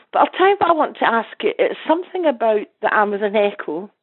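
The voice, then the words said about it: Congested voice from a cold. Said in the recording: “I've got a bit of a cold,”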